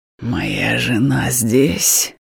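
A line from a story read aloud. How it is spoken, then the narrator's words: Drunken hoarse wheeze. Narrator (Russian): Пьяно хрипит он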